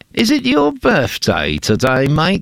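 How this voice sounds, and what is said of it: Put-on English accent. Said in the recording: “I'm doing my best English accent there”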